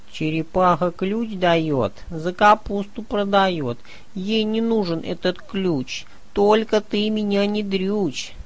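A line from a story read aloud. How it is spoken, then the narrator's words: Moaning. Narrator (Russian): Дуримар стонал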